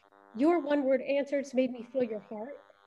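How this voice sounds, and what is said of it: Choked-up, emotional voice. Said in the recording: “I'm getting actually a little choked up,”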